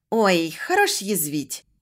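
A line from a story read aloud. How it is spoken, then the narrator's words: Snort. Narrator (Russian): хмыкнула Машка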